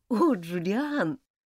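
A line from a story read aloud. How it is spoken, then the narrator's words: Whisper, half laughing half crying. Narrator (Russian): полусмеясь, полуплача, прошептала Элизабет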